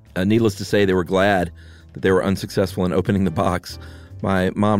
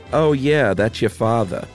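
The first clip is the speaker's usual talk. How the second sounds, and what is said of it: Put-on Long Island accent. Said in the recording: “my best Long Island accent ... You did a great one.”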